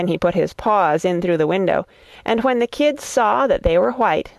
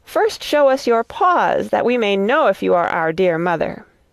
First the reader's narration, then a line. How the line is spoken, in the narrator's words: The little kids cried